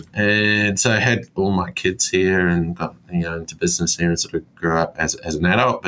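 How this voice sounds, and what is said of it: Slight New Zealand accent. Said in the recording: “I can sort of hear the Kiwi accent a little bit now”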